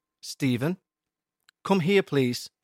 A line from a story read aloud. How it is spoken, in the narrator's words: she said calmly